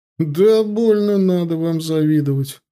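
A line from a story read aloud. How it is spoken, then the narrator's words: Laughing. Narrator (Russian): рассмеялся егерь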